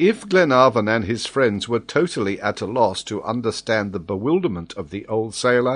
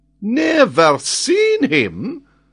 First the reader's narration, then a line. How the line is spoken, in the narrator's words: exclaimed Paganel, stupefied at the old sailor's replies